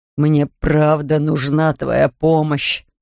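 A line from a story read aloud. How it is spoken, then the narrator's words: Groaned. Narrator (Russian): простонал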